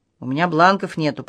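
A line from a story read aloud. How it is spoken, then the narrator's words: Grumbling officer. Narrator (Russian): проворчал участковый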